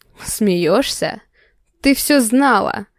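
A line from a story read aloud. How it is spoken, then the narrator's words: Growl. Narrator (Russian): рыкнул Марат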